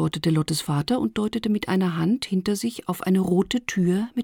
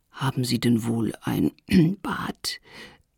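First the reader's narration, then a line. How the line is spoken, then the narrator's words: Genteel cough, soft. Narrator (German): hustete sie vornehm und sagte leise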